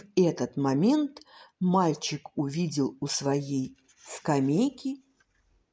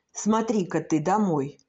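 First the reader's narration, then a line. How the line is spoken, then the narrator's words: Almost cheerful exclamation. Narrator (Russian): воскликнул Станислав Андреевич почти весело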